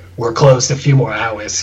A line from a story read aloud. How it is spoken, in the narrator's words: he grunts